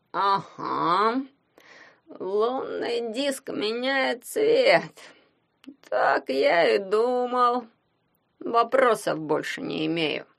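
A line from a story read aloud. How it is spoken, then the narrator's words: Grumbling. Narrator (Russian): пробурчал он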